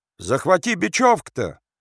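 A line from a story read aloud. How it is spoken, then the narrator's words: Shout. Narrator (Russian): крикнул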